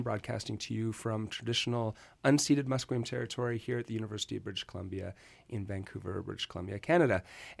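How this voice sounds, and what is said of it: Congested voice from a cold. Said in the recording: “I have a cold ... I'm getting over that.”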